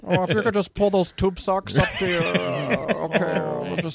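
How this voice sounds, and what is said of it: Impression of Max Wright. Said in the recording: “your Alf dad impression”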